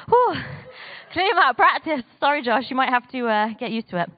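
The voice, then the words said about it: Out of breath, panting. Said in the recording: “I'm out of breath now, man.”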